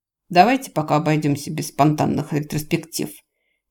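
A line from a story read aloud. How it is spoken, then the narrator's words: Angry grumble. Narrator (Russian): буркнул он сердито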